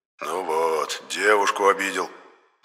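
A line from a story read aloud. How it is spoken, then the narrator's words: Sighing. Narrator (Russian): вздохнул Енох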